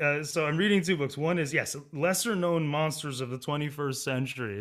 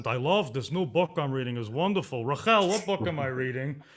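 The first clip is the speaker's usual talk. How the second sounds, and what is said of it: Thick Boston accent. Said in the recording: “with this thick Boston accent... Are you sure that's a Boston accent?... Oh, it's Boston.”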